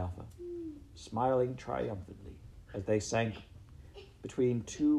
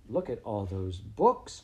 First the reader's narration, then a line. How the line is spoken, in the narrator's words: cried Cathabel